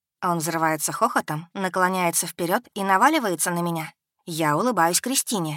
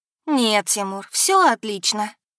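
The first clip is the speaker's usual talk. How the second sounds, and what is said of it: Mocking affected, simpering girlish tone. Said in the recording (Russian): “передразниваю жеманный тон Дунаевой”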